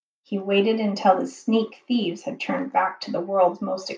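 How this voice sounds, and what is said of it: Usual voice. Nothing is said of it.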